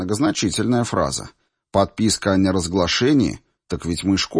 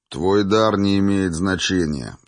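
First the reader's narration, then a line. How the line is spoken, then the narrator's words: Plain. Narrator (Russian): сказал сержант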